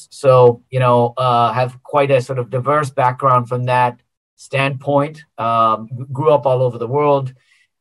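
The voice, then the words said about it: American accent. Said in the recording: “you can perhaps detect from my accent, I'm American by background”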